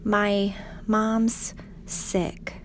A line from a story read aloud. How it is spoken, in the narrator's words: he said